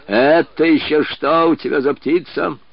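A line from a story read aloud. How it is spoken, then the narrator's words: Menacing question. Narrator (Russian): грозно спросил генерал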